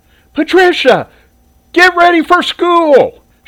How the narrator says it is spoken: Shirley yelled up

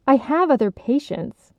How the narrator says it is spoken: Catherine snapped

